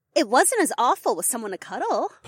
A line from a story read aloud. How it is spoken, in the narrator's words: Polina chirped